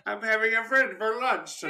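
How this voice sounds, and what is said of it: Sean Connery impression as Hannibal. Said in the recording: “When I saw Sean Connery, I was kind of like, I can't imagine Hannibal being like, yes, with that freaking accent.”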